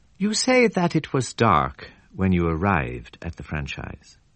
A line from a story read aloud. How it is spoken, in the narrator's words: he began in his gentlest drawl